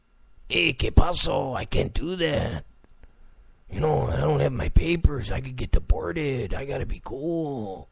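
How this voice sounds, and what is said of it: Put-on accent. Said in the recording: “You like my accent?”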